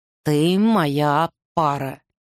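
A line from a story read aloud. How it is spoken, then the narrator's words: Slow repetition. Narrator (Russian): медленно повторил Арден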